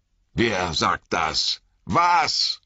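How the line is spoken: Shouting. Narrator (German): brüllte Frodo

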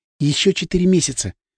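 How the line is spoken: Whisper in ear. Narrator (Russian): шепнула мне в ухо

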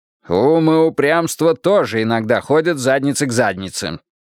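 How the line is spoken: Snapped back. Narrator (Russian): огрызнулся Грейтхаус

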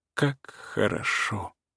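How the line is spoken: Quiet, rapturous. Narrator (Russian): Марья Ивановна говорила тихо и восторженно

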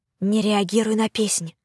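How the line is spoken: Whisper in the ear. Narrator (Russian): прошептала мне на ухо Тиона

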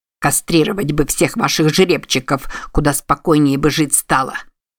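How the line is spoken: Angry grumble. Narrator (Russian): Сердито буркнул Мик, все еще злясь, что упустил беглеца

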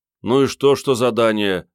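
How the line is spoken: Grumbling. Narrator (Russian): заворчал Генка

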